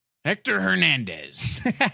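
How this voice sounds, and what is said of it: Put-on Spanish accent. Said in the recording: “There's a Spanish accent you just used? ... I've never heard that Spanish accent before.”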